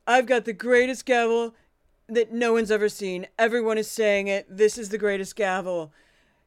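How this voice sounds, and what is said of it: Imitates another person's voice. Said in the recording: “bad Trump impression, but that's as good as I can do”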